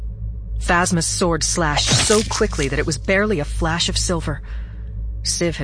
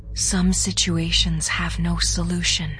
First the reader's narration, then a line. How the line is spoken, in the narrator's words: Siv whispered as he drew his last breath